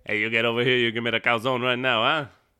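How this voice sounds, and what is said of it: Put-on Italian New York accent. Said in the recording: “Why do they have an Italian accent? ... Because they're from New York.”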